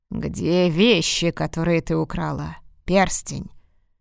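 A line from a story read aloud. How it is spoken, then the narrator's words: Gloomy hollow booming voice. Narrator (Russian): Голос звучал мрачно и будто доносился из глубокой бочки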